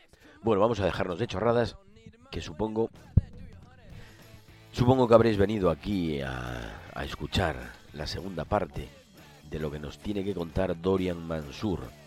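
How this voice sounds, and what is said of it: Hoarse, much deeper voice. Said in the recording (Spanish): “¡Ay, qué voz tengo, eh! ... hoy la voz me pasa factura ... parece que tengo voz de hombre ... Tengo así como una voz mucho más grave”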